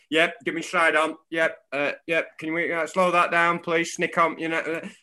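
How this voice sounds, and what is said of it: Weak put-on Australian accent. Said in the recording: “you used to hear an Australian umpire ... That's not a very good Aussie accent.”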